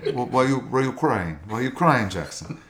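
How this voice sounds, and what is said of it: Deliberately bad Brazilian accent. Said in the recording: “I'm going to do a terrible Brazilian accent.”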